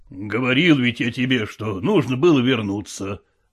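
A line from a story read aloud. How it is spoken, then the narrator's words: Grumbling. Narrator (Russian): ворчал Шелохвостов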